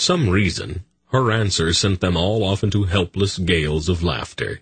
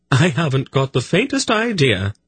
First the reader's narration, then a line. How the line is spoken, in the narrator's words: she replied gaily